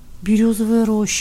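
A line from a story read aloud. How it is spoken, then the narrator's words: Drawl. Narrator (Russian): протянул Ивка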